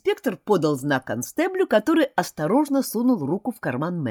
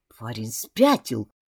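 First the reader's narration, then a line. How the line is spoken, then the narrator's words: Muttering. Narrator (Russian): пробормотал Мэрилис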